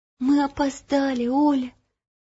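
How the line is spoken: Whispered. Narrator (Russian): прошептала Ело

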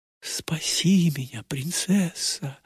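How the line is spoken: Delirious whisper. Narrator (Russian): шептал в бреду рыцарь

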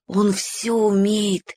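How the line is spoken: Admiring whisper. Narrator (Russian): с восхищением прошептал Уголек в Славкино ухо

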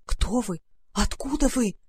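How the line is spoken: Terrified whisper. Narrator (Russian): зашептал он в ужасе

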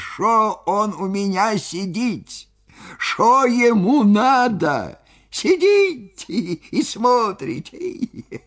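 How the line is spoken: Laughing, bass and squeaky. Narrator (Russian): он хохотал, хохотал до слез, то басом, то тонким писклявым голосом, и спрашивал меня

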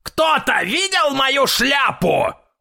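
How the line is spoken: Loud shout, grandfather. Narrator (Russian): громко крикнул дедушка

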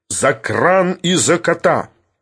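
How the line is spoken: Sudden angry bark. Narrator (Russian): рявкнул вдруг Филипп Филиппович, выходя из состояния иронического спокойствия

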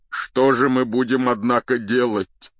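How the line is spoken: Tearful male voice. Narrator (Russian): продолжал он сквозь слезы

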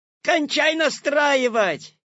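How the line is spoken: Shout from audience. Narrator (Russian): крикнули из зала

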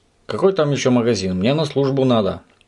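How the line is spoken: Grumbling. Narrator (Russian): проворчал господин Пепперминт

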